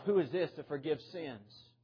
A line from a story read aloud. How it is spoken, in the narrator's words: the scribes and the Pharisees murmuring against Himself